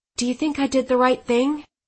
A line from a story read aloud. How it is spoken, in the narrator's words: I said anxiously